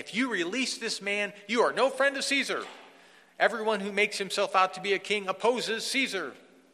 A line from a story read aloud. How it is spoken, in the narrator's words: The Jews cried out saying